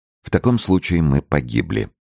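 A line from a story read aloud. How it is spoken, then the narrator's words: Calm bishop. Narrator (Russian): спокойно заметил ванский епископ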